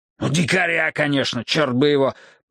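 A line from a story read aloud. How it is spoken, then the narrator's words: Growling. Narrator (Russian): прорычал я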